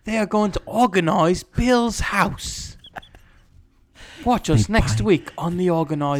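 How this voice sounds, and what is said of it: Put-on English accent, TV announcer. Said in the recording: “It's always an English accent.”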